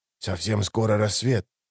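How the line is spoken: Whisper. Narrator (Russian): продолжал он также шепотом

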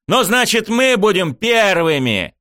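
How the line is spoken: Shouted. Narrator (Russian): выкрикнул я

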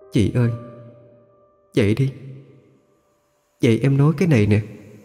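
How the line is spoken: Soft whisper close by. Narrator (Vietnamese): Cái bóng đó liền kề sát tai chị Hoang mà thủ thỉ

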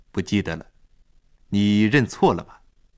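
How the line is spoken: Cold, displeased, perfunctory. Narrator (Chinese): 尊见脸上露出不悦的神情，冷冷地敷衍了一句

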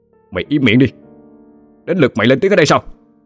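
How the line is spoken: Sharp shout. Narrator (Vietnamese): Chú Đồng quát

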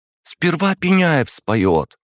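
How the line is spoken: Exclaiming. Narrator (Russian): воскликнула Веретенникова

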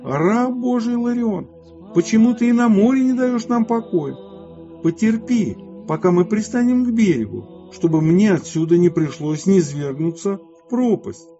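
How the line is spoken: Possessed boy's wailing howl. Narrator (Russian): У хозяина корабля был сын, мучимый нечистым духом, который завопил в нем

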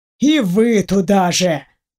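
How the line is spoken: Grumbled. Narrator (Russian): проворчал Дементьев

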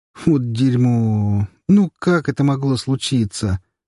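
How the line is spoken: Groan. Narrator (Russian): простонал друг

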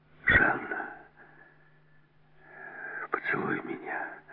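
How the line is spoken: Tender, special-toned whisper. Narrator (Russian): нежно прошептал Келс с какой-то особой нотой в голосе

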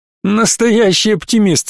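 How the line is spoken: Laughing. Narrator (Russian): засмеялся Джек, пытаясь стряхнуть с себя навалившийся морок

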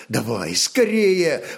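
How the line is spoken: Urgent exclamation. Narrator (Russian): воскликнул воевода

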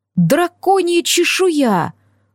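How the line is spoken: Exclaiming woman friend. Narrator (Russian): воскликнула подруга

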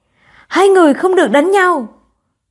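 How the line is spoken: Young girl speaking loudly. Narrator (Vietnamese): Một cô bé lớn tiếng nói

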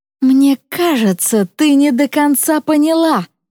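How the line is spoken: Hissing. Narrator (Russian): говорю я с шипением

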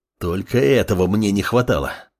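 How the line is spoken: Frustrated growl. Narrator (Russian): рыкнул подмастерье, понимая, что против него сражаются настоящие профессионалы

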